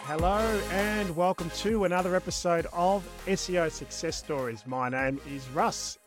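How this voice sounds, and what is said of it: Australian accent. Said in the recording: “you've heard this accent. I'm the Aussie guy doing SEO in Texas”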